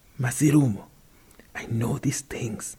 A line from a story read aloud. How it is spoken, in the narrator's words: he whispered